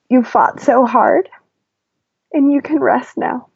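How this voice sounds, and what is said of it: Slightly teary, emotional voice. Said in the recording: “kind of makes me a little teary.”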